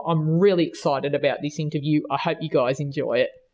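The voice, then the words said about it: Australian accent. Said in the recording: “Did I completely butcher it with my Australian accent? ... without the Australian accent”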